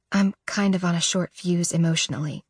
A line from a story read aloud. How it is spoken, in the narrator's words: I whisper